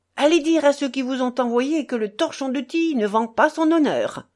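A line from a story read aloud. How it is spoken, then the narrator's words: Exclaiming. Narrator (French): s'écria-t-il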